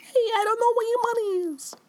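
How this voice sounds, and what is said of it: Small high put-on New York accent. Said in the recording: “A little tiny New York accent.”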